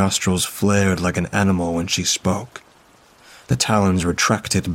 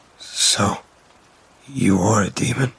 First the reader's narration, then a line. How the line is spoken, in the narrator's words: My voice trembled